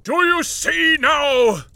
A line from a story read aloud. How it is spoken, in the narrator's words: Marley howled